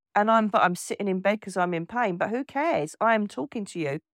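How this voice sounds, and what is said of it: Voice with a cold. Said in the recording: “I've got a cold”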